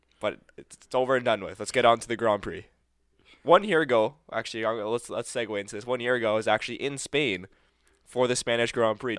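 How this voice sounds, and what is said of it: Slightly raspy voice. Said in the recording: “The voice. ... Voice is a little raspy.”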